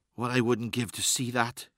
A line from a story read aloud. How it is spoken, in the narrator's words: whispered